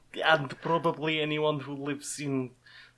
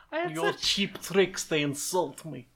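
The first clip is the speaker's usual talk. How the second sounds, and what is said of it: Put-on Eastern European accent. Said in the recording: “Your accent, it insults me. ... eastern section of Europe. ... Eastern block.”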